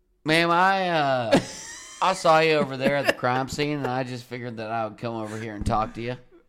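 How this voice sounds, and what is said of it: Put-on country accent. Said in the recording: “let me do a little bit of country”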